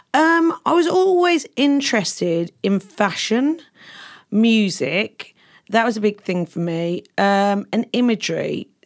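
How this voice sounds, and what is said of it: London accent, a bit monotone. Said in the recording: “I grew up in London ... I love your accent so much ... sounds a bit down, a bit monotone”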